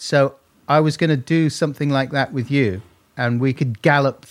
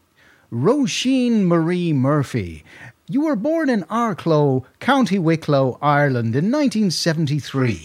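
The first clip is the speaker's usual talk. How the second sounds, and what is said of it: Imitated presenter voice with American twang. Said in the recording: “do an Eamon Andrews impression... there was quite an American twang to him”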